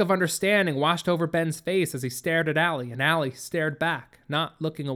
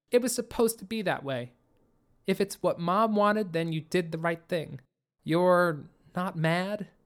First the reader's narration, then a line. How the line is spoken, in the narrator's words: Allie said